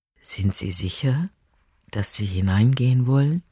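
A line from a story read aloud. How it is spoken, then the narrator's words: Whispering. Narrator (German): Gonda flüstert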